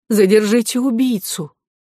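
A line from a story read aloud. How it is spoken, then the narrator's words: Startled cry. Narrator (Russian): вскрикнула и проговорила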